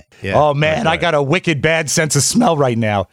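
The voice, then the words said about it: Put-on Boston accent. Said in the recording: “He's from North Boston, it turns out. That's the accent.”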